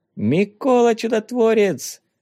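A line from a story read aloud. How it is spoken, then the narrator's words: Sudden shout. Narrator (Russian): закричал вдруг Ванюшка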